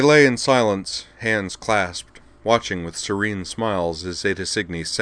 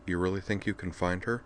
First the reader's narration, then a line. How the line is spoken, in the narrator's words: Utina asked him softly